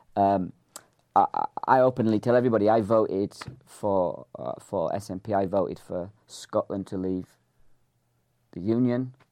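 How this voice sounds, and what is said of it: English accent. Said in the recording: “The only thing English about me is my accent.”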